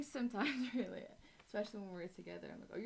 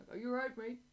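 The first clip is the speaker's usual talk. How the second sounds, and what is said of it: Northumberland accent. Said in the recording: “a bit of a Northumberland accent”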